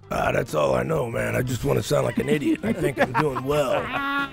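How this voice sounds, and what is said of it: Impression of Jono's voice. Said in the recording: “his impersonation of you ... your favorite Jono voice”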